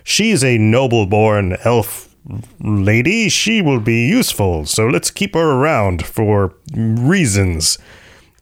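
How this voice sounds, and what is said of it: Impression of General Symmachus. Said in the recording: “That's my impression.”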